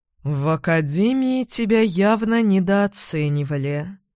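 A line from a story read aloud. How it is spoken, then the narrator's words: Strange tone. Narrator (Russian): ректор странным тоном произнес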